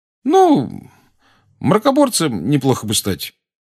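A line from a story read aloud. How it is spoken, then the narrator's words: Deliberately casual tone. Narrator (Russian): сказал Рон нарочито небрежным тоном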